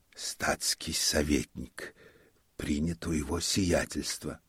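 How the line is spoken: Whispered. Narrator (Russian): он тотчас уже шептал Ане

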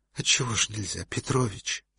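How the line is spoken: Pleading childlike voice. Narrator (Russian): сказал он почти умоляющим голосом ребенка

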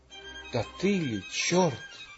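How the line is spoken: Whisper. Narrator (Russian): Он прошептал

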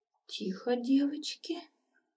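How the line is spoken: Weak pleading, hen. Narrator (Russian): слабым голосом попросила курица

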